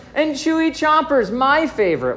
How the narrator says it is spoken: whined Brother

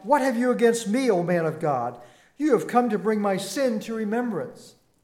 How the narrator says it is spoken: The widow cried out

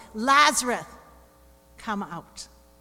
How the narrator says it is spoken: Jesus … called in a loud voice

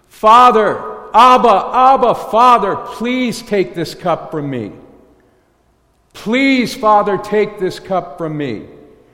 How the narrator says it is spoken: cried out

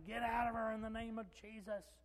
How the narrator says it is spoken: was shouting

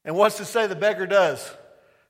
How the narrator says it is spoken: He cries out again, louder

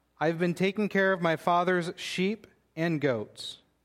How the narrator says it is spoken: he said

